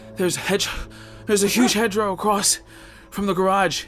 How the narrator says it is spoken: he shouted back, breathlessly

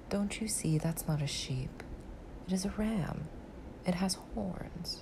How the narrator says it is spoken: My little friend said gently and indulgently

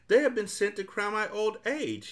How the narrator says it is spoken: he cried

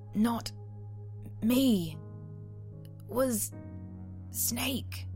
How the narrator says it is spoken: weakly choked out

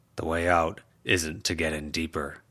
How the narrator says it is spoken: Charles growled

